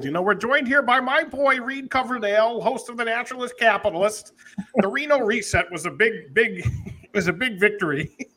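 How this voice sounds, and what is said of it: Imitates another person's voice. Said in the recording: “your impersonation”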